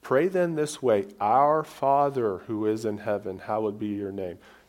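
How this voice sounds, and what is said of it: Non-native English accent. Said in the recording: “sorry about my English, my accent, whatever you want to call it.”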